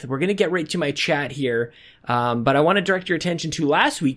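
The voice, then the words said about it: Slightly out of breath. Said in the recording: “I'm a little out of breath.”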